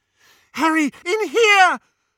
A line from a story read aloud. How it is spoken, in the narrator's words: Hermione screamed